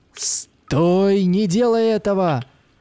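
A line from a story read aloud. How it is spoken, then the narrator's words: Shouting from afar. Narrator (Russian): закричал с берега Макс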